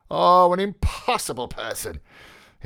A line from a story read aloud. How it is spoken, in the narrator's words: he exclaimed